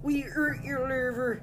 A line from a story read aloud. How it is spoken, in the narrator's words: he shouted